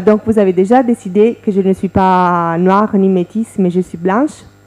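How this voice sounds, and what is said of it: Slight European foreign accent in French. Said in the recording (French): “mon accent. Parce que comme vous l'avez dit, moi j'ai un petit accent quand je parle français ... par rapport à la langue déjà, on sent qu'elle n'est pas française et également sénégalaise. Donc, c'est une européenne.”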